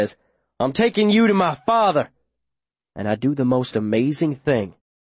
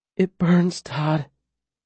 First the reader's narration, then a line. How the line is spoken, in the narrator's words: she says, her voice low